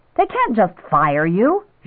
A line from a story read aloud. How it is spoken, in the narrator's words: she said indignantly